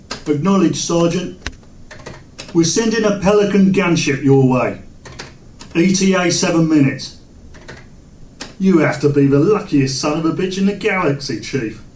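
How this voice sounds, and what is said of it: British accent, Marine character voice. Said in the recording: “our new British Marine ... something about the accent”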